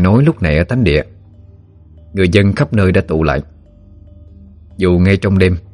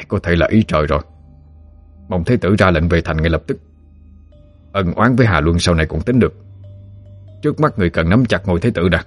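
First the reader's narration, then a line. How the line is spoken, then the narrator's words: Quiet, comforting. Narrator (Vietnamese): Quân sư liền nhỏ giọng an ủi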